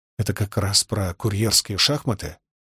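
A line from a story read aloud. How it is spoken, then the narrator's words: Quiet question. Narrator (Russian): спросил я отца тихо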